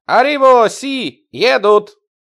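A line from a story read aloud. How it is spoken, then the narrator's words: Shouted. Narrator (Russian): закричал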